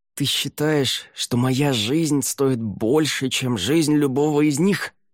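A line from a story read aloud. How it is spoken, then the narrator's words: Through gritted teeth. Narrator (Russian): сквозь зубы спросил Ель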